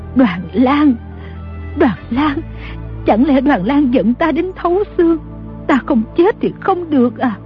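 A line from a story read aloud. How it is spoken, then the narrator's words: Trembling voice. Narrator (Vietnamese): Bà run rẩy nói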